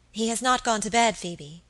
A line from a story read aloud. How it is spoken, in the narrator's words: said my lady eagerly